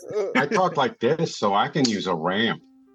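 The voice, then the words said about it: Exaggerated put-on Chicago accent. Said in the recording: “having a Chicago accent”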